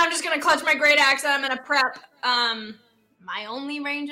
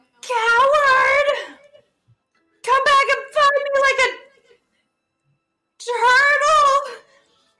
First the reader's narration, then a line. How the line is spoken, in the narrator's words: yell